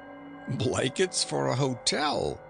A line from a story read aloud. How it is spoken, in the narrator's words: quoth one of the men who laughed